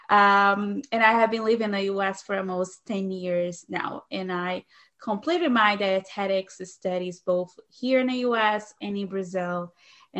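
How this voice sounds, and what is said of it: Brazilian accent. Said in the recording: “I'm originally from Brazil, so that is the reason for the accent that you might be picking up over the audio”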